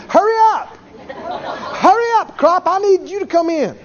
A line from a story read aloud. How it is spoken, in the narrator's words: scream